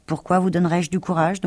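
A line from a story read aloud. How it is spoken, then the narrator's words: Plain question. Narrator (French): demanda Oz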